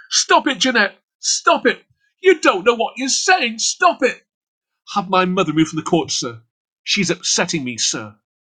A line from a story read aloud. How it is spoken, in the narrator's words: she shouted